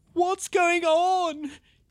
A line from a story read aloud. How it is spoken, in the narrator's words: Hubert cried, panic now flooding his body